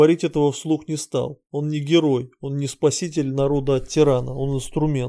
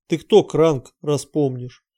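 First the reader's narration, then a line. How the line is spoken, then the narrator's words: Gloomy. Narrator (Russian): Кранг мрачно сказал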